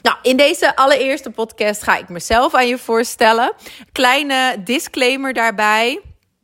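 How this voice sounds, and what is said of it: Dutch accent with Flemish intonation. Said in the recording (Dutch): “voornamelijk een Nederlands accent, want ik ben geboren en getogen in Groningen ... inmiddels zitten er ook wat Vlaamse woorden tussendoor en is ook mijn intonatie wat uh, vervlaamst”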